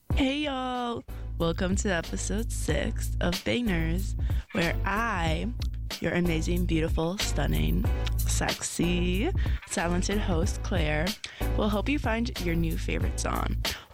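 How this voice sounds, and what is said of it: Slightly raspy voice. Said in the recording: “my voice is a little raspy ... I will probably sound like a chain smoker today”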